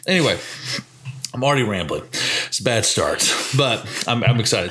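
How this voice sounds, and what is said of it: Tired, raspy smoker-like voice. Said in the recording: “voice is tired. I sang and talked so much ... you know how you just talk like when you're really sleepy and tired ... I sound like a smoker”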